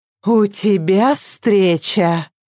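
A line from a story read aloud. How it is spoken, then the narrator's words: Sighing. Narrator (Russian): вздохнула Вика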